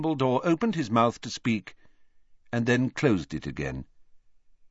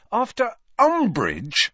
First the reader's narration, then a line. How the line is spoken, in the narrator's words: said Harry angrily